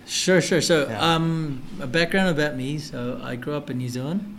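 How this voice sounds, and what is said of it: Noticeable foreign accent. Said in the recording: “What's with the accent? ... it caught me off guard”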